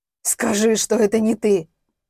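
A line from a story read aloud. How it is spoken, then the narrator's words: Hoarse, frantic. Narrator (Russian): Прохрипел он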